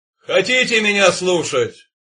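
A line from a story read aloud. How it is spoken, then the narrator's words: Booming voice. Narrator (Russian): прогремел его голос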